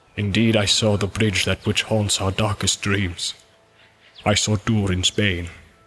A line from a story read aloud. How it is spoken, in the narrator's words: said Gimli in a low voice, and dread was in his eyes